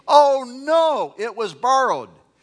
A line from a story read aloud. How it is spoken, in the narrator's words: He cried out in dismay